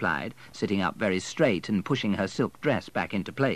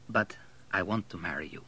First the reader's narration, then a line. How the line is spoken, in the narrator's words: said Abel quietly